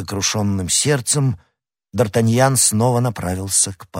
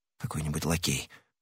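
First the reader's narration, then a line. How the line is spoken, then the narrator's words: Mutter. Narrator (Russian): пробормотал Д'Артаньян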